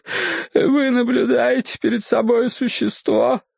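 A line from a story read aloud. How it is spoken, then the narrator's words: Sobbing. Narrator (Russian): заговорил он, то и дело всхлипывая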